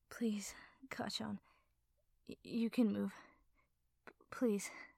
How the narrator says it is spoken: said, his voice breaking as he spoke

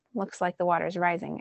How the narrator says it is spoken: I said more calmly than I felt

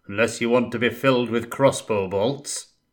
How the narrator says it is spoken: boomed out an unfamiliar voice

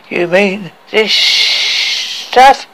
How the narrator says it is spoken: said a dwarf with a slurred voice

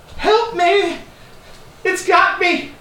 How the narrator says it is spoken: the same voice in all of your heads screaming

